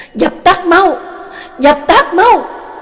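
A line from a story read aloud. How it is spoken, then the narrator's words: Loud roar. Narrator (Vietnamese): một tiếng gầm lớn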